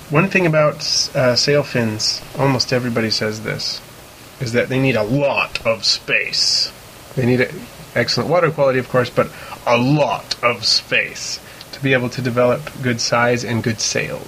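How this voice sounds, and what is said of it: Deeper than usual speaking voice. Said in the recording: “you can use that voice for the James Earl Jones impersonation ... at least it's deeper than my normal voice”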